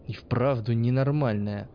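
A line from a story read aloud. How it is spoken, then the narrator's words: Sighing to himself. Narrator (Russian): вздохнул про себя учитель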